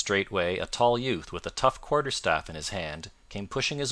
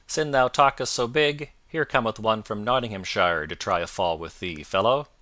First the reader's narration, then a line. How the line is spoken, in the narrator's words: a loud voice was heard to cry out